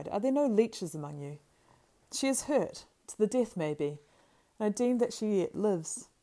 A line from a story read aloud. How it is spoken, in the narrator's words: he cried